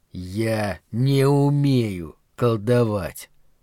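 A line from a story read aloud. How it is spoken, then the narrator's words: Slow, clipped words. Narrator (Russian): Медленно, отрубая каждое слово, он произнес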